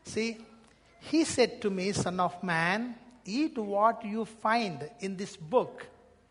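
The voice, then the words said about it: Strong non-native English accent. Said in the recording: “my accent is funny accent.”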